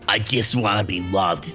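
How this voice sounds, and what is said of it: Imitates another person's voice. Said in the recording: “my Harvey Fierstein. Well, my impression of John Lovitz doing Harvey Fierstein.”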